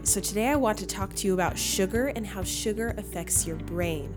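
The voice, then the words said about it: Scratchy voice. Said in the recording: “my voice sounds a little scratchy. I've had a head cold that I'm getting over”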